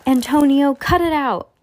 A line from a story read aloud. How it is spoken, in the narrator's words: Lucy exclaimed